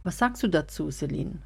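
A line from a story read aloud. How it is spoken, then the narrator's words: Plain question. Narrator (German): fragte Jessica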